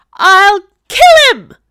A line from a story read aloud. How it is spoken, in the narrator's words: cried a female voice